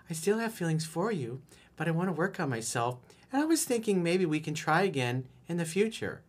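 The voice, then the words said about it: Girly put-on voice. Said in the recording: “do it my girly voice.”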